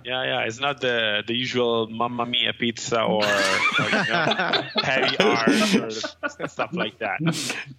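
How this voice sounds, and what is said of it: Light Italian accent. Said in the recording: “It's just the Italian accent, you know? Man, it's that romance language ... it doesn't sound like the heaviest thing I've ever heard”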